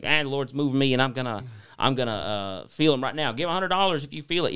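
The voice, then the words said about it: Imitates a preacher's accent. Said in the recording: “I could tell what pastor it was by your accent.”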